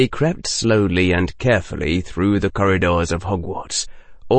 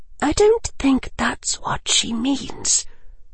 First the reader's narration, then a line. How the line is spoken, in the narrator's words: General Granger murmured from Lavender's own left